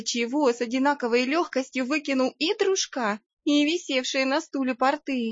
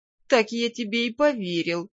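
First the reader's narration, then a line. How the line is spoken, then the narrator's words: Laughing, then speaking. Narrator (Russian): рассмеялся и сказал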